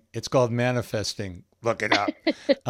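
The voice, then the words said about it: Impression of the co-host. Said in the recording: “that's my impersonation of you.”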